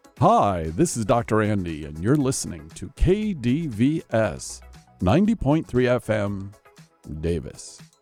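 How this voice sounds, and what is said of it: Announcer-style radio voice. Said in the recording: “I put on my radio voice, that can be rather intimidating ... I might put on a different voice. I might put on my KDBS radio voice.”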